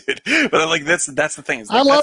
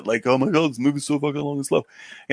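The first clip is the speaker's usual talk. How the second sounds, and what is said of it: Imitates another person's voice. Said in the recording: “That was a good Chris impression.”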